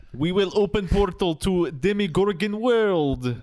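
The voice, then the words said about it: Good put-on Russian accent. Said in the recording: “That's a pretty good Russian.”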